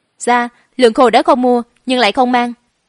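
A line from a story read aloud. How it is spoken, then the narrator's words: Exasperated angry speech. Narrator (Vietnamese): Trung Thương bất đắc dĩ trừng mắt nhìn Thiểm Điện, giận dữ nói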